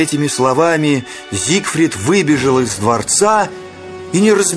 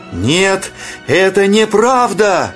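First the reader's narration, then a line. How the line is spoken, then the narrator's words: Shouting. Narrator (Russian): закричал, выбегая из леса, Зигфрид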